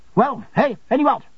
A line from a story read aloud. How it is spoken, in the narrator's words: said my aunt sharply